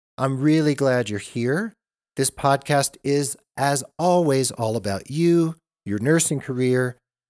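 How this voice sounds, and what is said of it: Congested voice from a cold. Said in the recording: “that I have a little cold,”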